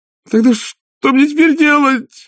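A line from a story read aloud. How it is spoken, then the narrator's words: Howling. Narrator (Russian): взвыл он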